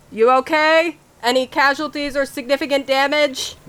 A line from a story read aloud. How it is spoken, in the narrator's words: Amelia, like, yells over